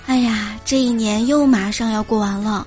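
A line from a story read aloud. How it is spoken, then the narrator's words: Sighing exclamation. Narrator (Chinese): 你时不时就会惊叹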